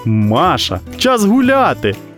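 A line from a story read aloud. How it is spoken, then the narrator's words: Joyful girl. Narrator (Ukrainian): радісно повідомила дівчинка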